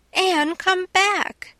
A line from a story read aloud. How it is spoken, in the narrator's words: shrieked as soon as she found her voice